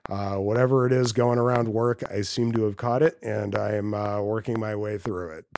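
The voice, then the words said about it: Sick, congested voice. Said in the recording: “I'm a little bit under the weather, so my voice is a little jacked up ... will keep out most of the sniffling”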